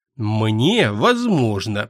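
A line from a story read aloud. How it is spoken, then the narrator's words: Through clenched teeth. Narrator (Russian): процедил сквозь зубы некромант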